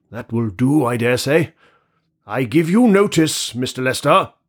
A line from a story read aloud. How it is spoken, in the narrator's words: he cried loudly at the keyhole